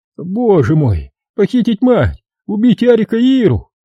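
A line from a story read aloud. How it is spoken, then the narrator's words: Hooting, moaning like owl. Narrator (Russian): он заухал, застонал ночным филином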